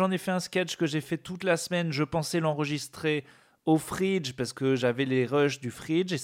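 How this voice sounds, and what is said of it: Usual voice. Nothing is said of it.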